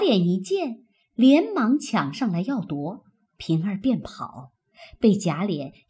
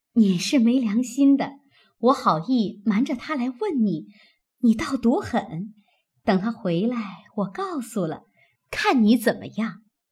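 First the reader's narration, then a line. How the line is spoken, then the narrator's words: Laughing. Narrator (Chinese): 平儿笑道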